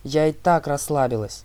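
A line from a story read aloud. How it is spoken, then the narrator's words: Snapping retort. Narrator (Russian): огрызнулась Талия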